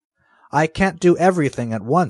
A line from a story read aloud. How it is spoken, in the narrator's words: said Irene, crossly